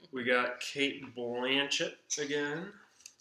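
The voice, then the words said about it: Put-on Australian accent. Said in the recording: “That was your Australian accent, right?”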